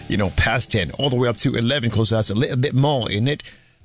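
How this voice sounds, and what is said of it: Put-on British accent. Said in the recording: “my British accents”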